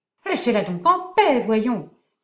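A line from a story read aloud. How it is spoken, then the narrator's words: Old man, furious shout. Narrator (French): s'écria le vieux avec fureur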